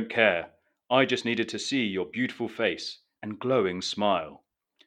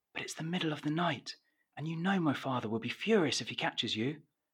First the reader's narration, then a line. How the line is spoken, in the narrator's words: Colette whispers